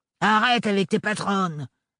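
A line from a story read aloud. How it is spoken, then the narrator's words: Growling. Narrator (French): grogna Gaël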